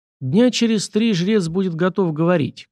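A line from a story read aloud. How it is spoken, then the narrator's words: Sighing. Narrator (Russian): князь вздохнул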